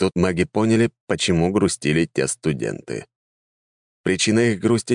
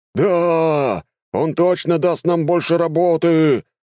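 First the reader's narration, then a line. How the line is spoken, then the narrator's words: Crowd shouting. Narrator (Russian): закричала в ответ толпа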